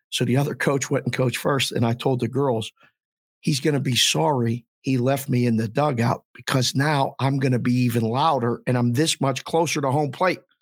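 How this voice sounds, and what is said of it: Hoarse, strained voice. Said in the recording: “lost my voice cheering with the girls”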